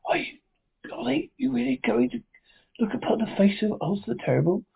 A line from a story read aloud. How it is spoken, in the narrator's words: One of them whispered